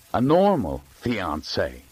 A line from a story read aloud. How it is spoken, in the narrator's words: Graham said bitterly